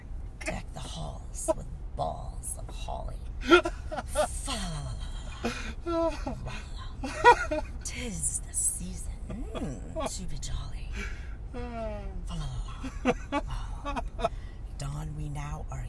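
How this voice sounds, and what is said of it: Sultry phone-sex singing voice. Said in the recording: “sing them like we're a phone sex operator ... sexy voice ... Do it like you're talking sexual”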